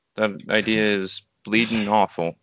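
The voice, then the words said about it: Put-on British accent. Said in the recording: “give us a bit of a British accent”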